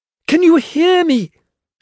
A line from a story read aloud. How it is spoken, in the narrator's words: she yelled at him